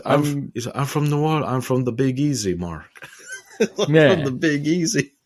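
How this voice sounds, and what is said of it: Imitated Eastern European accent. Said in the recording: “that is a Eastern European accent for sure.”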